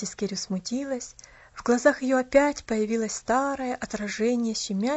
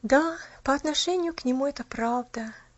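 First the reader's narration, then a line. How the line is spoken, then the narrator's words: Sighing. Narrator (Russian): наконец вздохнула она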